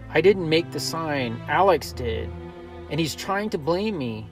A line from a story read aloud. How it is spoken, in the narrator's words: I pleaded